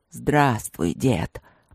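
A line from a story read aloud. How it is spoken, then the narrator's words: Growled. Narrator (Russian): прорычал новоприбывший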